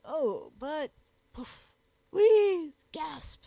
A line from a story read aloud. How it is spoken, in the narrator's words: exclaimed Jogglebury, reddening up